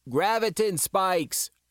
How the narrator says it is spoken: Ira shouted

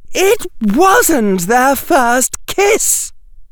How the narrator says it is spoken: shouted Daphne

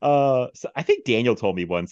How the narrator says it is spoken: he laughed

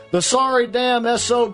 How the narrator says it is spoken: she exclaimed when told the governor has gone out for a drive

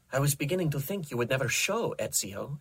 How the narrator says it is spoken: she said in a rich, beautiful Italian accent

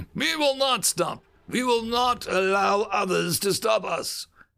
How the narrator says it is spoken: continued gruffly

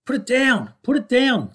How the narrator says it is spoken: screamed Brownie at the top of his voice

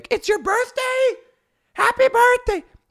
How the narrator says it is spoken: he'll just scream out loud

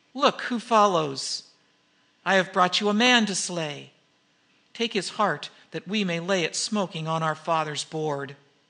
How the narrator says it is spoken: cried the girl, dancing between them

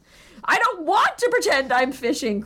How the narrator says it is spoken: cried Stuart desperately

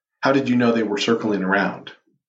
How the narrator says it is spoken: she asked

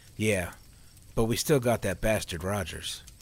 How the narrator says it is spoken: Neil said with a chuckle

